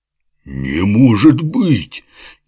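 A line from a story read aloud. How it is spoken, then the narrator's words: Elated near-howl of joy. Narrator (Russian): едва не взвыл от счастья воодушевленный Оболенский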